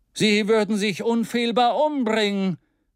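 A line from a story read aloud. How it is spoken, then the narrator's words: Exclaimed. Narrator (German): rief er aus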